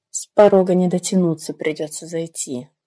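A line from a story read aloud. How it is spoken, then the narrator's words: Glum thought, young woman. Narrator (Russian): уныло подумала девушка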